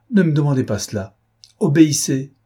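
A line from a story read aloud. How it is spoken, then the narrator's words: Frightened cry. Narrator (French): s'écria Suzanne avec effroi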